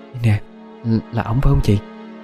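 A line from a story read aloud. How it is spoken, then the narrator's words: Whispering in ear. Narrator (Vietnamese): Kim hít tai Hậu thì thầm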